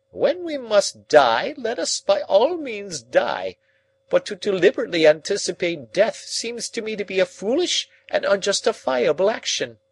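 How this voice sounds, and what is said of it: Querulous, complaining voice. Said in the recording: “cried Summerlee in a querulous voice”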